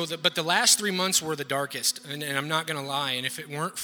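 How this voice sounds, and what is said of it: Usual voice. Nothing is said of it.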